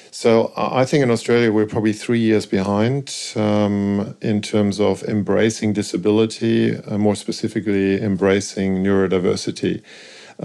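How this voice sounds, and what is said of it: German accent. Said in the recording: “You do hear a German accent”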